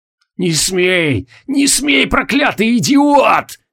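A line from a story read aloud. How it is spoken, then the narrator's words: Hoarse rasping. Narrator (Russian): хрипел Искашмир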